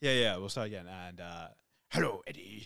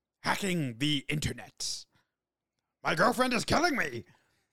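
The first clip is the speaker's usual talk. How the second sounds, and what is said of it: Venom character voice impression. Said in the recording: “do it in a Venom voice ... Well, that's pretty good.”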